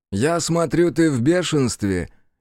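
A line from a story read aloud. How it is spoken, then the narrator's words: Snide. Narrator (Russian): ехидно сказал он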